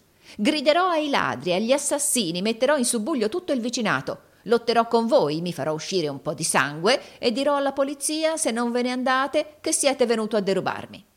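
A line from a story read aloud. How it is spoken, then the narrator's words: Horrible shriek. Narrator (Italian): rispose Gride, con un orribile grido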